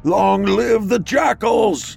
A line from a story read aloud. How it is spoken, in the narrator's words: He howls to the moon above and declares